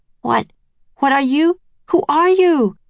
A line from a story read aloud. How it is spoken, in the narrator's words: Nancy sputtered